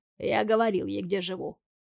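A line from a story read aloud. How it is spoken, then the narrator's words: Calm answer. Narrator (Russian): отвечает спокойно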